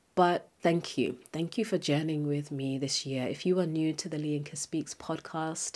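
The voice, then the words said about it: Emotional, sniffly voice. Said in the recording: “I'm doing my best not to sniffle ... as I'm getting emotional, I'm getting sniffly”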